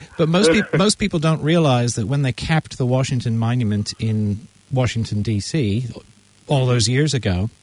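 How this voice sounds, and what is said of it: American accent. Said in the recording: “You can tell from my accent I'm an American, right? I'm a Yank.”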